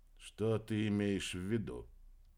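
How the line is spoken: Quiet question. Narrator (Russian): тихо спросил Кольдер

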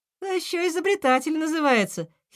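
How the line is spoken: Young hedgehog giggling. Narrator (Russian): хихикнула ежинка

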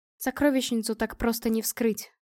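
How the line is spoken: Cold female voice. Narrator (Russian): сказала я холодно

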